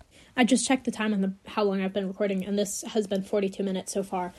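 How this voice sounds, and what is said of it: Voice cutting out, cold-affected. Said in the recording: “my voice keeps cutting out. I just have like a little leftover of a cold, and it keeps on choking back in my throat.”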